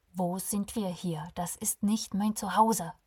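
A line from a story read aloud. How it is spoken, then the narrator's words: Angry. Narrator (German): Alexander war wütend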